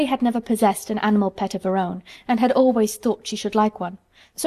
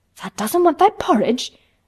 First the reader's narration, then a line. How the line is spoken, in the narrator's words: Martha exclaimed incredulously